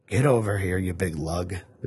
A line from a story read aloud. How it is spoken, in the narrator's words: the Reverend sighed